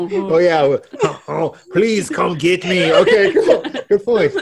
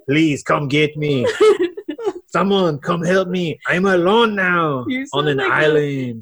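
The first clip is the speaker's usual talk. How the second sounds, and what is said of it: Exaggerated cartoonish French accent. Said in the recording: “I know how you do your French accent. ... You sound like the chef from Little Mermaid.”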